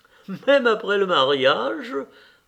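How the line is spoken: Laughing question. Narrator (French): demanda l'ambassadrice en riant

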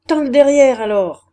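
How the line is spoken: Shouting. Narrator (French): cria-t-elle

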